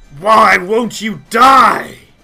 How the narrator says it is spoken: he is snarling out and he says

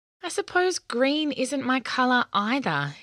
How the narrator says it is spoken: he said sadly

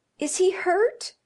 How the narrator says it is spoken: demanded the mother wildly

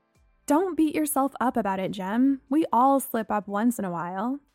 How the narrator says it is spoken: I said

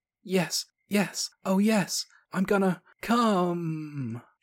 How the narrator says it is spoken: she screamed as her body stiffened, jerking violently when her orgasm hit her

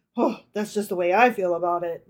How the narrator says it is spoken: muttered Fischl gloomily

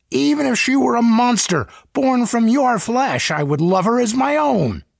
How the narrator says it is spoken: he cried

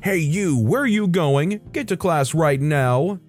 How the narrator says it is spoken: he shouted

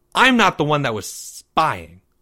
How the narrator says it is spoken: Maya snapped

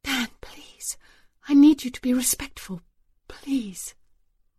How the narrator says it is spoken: she dropped her voice and whispered

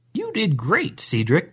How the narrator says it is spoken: Grandma said rather cheerfully

